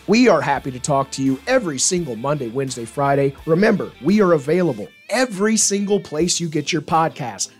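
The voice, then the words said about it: Messed up voice. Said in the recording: “my voice is still messed up, man”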